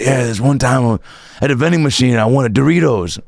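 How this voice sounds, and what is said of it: Poor Danny Glover impression. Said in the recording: “That's also not a great Danny Glover impression. ... That's the worst Danny Glover impression.”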